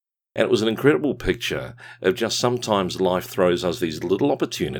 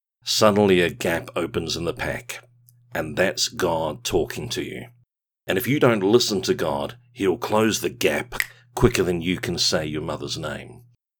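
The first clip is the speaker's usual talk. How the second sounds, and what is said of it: Dour, gruff English-New Zealand accent. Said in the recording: “Sam Neill plays Michelle's father, and he's kind of got this very dour, gruff approach ... it's kind of in a very kind of almost English New Zealand accent.”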